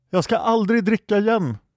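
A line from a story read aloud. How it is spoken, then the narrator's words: Shouting. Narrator (Swedish): skrek Pelk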